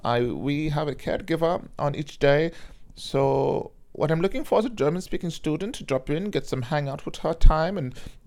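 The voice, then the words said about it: Put-on German accent. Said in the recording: “That's my German accent.”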